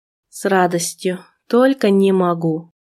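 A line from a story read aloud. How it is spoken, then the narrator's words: Weak moan. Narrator (Russian): Я слабо застонала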